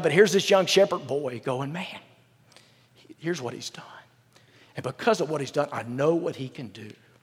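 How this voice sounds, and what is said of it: Choked-up, emotional voice. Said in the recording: “I'm sorry I get choked up”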